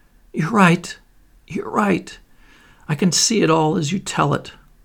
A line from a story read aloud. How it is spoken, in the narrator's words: in a choked voice she said